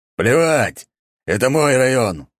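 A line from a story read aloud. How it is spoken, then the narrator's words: Growling. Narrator (Russian): рыкнул он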